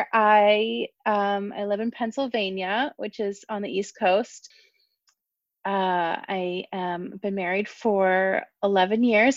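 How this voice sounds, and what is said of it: American accent. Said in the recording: “my ugly American accent”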